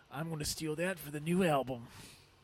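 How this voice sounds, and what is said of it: Poor impression of a rock singer. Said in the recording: “That's a really bad Dave Mustaine impression.”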